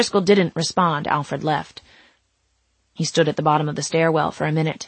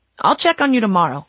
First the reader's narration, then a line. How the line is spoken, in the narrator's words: he said